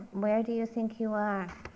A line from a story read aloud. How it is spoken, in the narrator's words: The attendant said softly